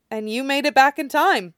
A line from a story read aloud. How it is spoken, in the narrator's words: Naruto counters, laughing a little